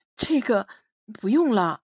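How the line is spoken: Hesitant. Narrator (Chinese): 迟疑的说

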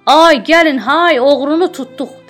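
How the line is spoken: Shouting. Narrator (Azerbaijani): deyə bağırırdılar

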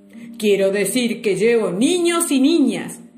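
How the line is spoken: Bellowed. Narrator (Spanish): vociferó

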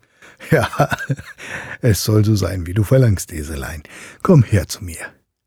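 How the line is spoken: Laughing, good-humored. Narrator (German): Der König lachte und sprach in gutem Mut

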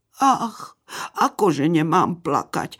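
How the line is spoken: Little fox lamenting. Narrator (Slovak): nariekala líštička

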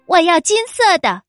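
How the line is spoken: Shouting queen. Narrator (Chinese): 王后也跟着叫了起来

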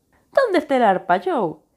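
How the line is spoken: Exclaimed. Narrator (Spanish): exclamó Lori

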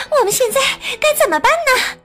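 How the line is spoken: Breathless question. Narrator (Chinese): 米美气喘吁吁地问凯蒂

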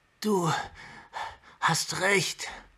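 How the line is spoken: Panting. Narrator (German): keuchte sie

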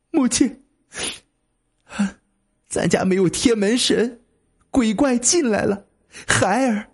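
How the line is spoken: Weeping. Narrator (Chinese): 王正哭泣，说

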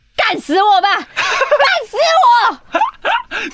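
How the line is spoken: Loud, over loudspeaker. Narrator (Chinese): 喇叭就传来了马克在大声说

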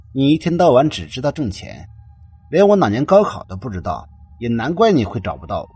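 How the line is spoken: Cold. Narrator (Chinese): 何源冷冷的说道

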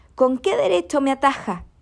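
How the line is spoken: Shouted at the hill. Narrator (Spanish): le gritó al cerro

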